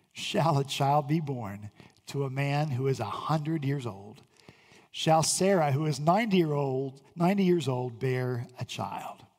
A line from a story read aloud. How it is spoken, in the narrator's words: Abraham … laughed and said to himself